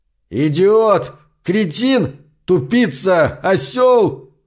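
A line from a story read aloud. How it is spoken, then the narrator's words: Yelling. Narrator (Russian): вопил второй впереди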